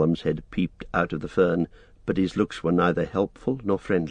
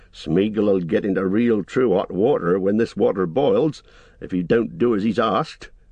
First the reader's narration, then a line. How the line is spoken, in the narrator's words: growled Sam